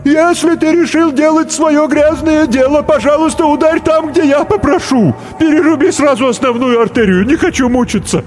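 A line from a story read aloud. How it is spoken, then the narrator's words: Screaming. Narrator (Russian): клен закричал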